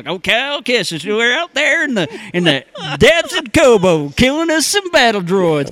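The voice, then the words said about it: Put-on Texan accent. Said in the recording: “he's got a Texan accent”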